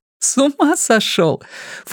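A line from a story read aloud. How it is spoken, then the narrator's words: Snorting then laughing. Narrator (Russian): фыркнула Настя и рассмеялась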